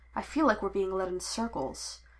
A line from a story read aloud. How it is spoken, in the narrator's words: Shakti murmured under her breath